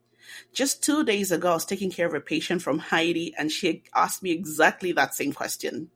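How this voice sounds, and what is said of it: African English accent. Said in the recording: “your accent, where are you from? ... she thought I was from Trinidad. Many people say Jamaica. ... when I say Africa”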